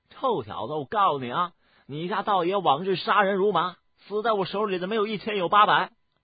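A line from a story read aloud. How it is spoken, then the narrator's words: Embarrassed, loud and angry. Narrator (Chinese): 野狗道人神情尴尬之极，忽地大声的怒道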